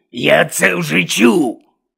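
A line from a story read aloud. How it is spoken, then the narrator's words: Barked. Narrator (Ukrainian): гаркнув Гонт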